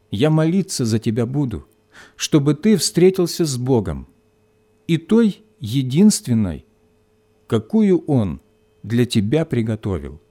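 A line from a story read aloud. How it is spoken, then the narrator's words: Quiet addition. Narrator (Russian): Вера ... тихо добавила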